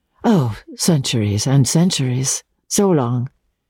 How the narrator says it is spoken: she said

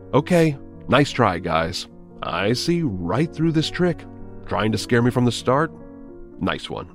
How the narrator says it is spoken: chuckled to myself and then shouted

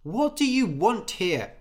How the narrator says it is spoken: shouted Anders

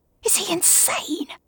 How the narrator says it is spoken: Gavin whispers to Elle

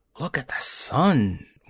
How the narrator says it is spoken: one of them murmured

